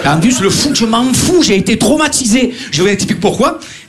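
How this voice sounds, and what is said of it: Marseille French accent. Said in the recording (French): “on entend mon accent ... Marseillais”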